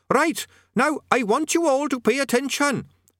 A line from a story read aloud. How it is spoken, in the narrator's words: squeaked Quez Overquattle, cupping its tiny hands around its main mouth in an effort to be heard